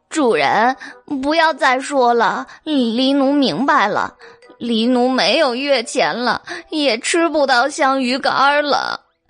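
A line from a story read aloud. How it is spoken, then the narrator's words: Crying, interrupting. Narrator (Chinese): 黑猫哭着打断白姬的话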